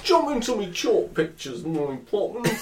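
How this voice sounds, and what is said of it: Exaggerated mock Cockney accent. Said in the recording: “It's a bit Dick Van Dyke, isn't it? ... That's about the best impression you will get.”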